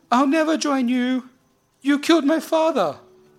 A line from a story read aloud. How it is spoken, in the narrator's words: Akul screams back at him